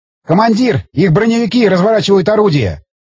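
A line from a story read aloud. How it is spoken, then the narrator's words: Gunner shouting. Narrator (Russian): крикнул стрелок главного калибра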